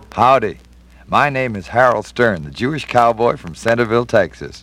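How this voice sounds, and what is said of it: Texas drawl. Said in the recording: “My drawl is second generation Texas”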